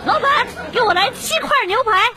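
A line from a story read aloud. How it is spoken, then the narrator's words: Loud shout. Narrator (Chinese): 女朋友 大叫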